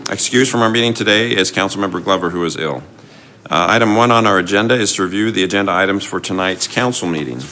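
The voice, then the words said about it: Rough, sick-sounding voice. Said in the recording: “I apologize for my voice. I'm fighting a little bit of a cold today.”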